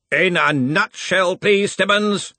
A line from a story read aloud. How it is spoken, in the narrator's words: growled Ridcully